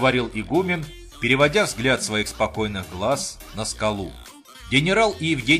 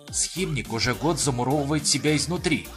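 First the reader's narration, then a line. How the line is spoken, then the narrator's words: Whispered in ear. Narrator (Russian): зашептал Евгению в ухо помощник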